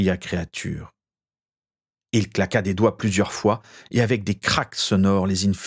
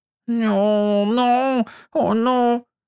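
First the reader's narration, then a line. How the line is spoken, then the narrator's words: Moaned. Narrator (French): gémit Créature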